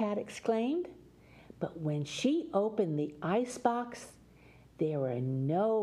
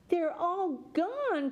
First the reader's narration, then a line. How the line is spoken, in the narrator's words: cried Alley Cat